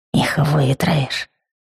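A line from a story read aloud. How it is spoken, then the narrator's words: Fearful whisper. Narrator (Russian): боязливым шепотом переговаривались валдаки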